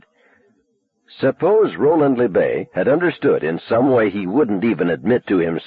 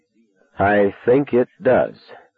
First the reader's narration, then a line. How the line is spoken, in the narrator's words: I said slowly